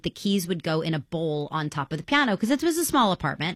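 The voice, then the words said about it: New York accent. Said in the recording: “You have more of a New York accent when you talk about New York.”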